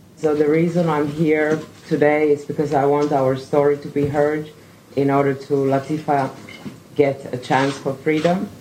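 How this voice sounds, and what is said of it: Steady voice despite nervousness. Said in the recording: “Tina was nervous, but she told her story in a steady voice.”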